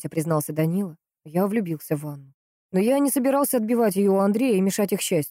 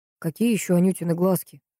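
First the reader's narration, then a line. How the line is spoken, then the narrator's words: Tired question. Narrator (Russian): устало спросил Богуславский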